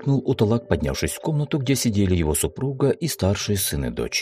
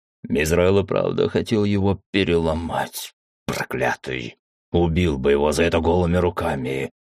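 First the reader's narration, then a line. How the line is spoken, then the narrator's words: Growled. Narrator (Russian): прорычал он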